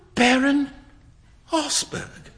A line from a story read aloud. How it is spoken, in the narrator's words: cried Huey